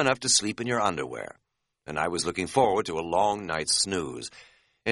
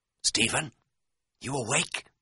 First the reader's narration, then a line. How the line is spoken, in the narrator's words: I whispered